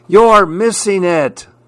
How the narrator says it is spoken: everyone is yelling

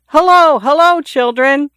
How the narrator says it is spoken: He shouted

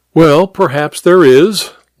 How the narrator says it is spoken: Hare laughed amiably

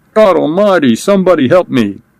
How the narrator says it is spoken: a cold wail in the gloom, then died

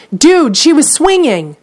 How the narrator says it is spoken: a woman watching nearby excitedly tells her friend

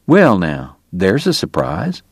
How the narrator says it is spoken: Doc murmured

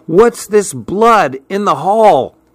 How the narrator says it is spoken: Suddenly, I heard Betsy shout

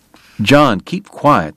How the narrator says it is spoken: the doctor snapped

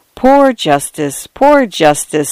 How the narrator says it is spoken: sighed

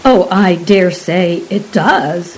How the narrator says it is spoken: replied her husband

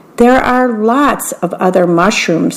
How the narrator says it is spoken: said Grasshopper

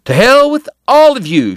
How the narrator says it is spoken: she shouted

